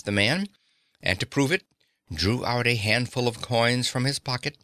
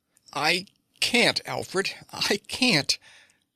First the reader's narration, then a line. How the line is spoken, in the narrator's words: she said, all choked up